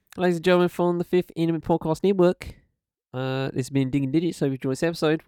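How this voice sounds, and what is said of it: Put-on Australian accent. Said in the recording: “why am I speaking Australian?”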